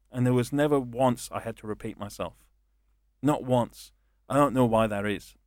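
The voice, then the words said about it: Strong non-local accent. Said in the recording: “they wouldn't understand my accent, because I have a problem with that here”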